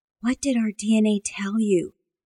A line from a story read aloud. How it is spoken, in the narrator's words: Amanda whispered